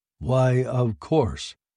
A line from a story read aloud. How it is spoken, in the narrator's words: the ship said calmly, happily